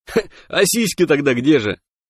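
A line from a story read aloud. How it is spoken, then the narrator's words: Chuckling catfish. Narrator (Russian): хохотнул ставший вновь похожим на себя сом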